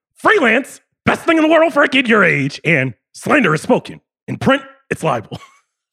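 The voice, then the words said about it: Imitates another person's voice. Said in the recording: “That's pretty good impression.”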